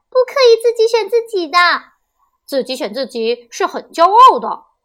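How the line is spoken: Children shouting together. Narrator (Chinese): 同学们都叫起来

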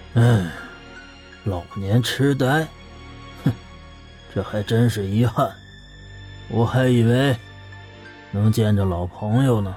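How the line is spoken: Regretful sigh, blunt. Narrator (Chinese): 裘千仞满是遗憾的叹了口气，丝毫不客气的接道

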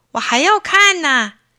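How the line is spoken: Clamoring. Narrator (Chinese): 张谷川嚷道

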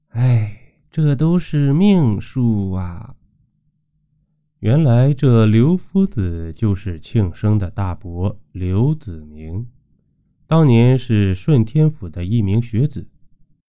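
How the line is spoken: Shocked sigh. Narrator (Chinese): 刘氏大惊，叹气道

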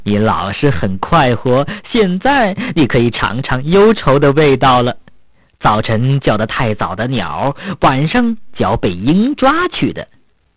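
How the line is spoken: Mocking. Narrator (Chinese): 鞋匠就嘲笑说

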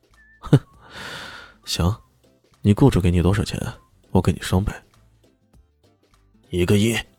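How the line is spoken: Chuckling. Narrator (Chinese): 李炫呵呵一笑，然后说道

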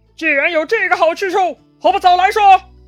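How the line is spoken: Loud scolding. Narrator (Chinese): 张飞大声责骂

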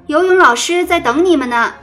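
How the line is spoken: Calling out. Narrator (Chinese): 老师叫着

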